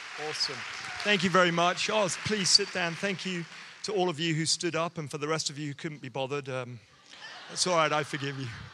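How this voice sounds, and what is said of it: English accent. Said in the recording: “if you can't understand my accent ... it's actually because I'm speaking the Queen's English”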